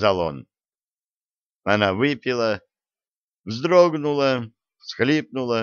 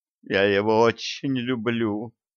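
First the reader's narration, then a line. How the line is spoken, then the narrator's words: Moaning. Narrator (Russian): простонала она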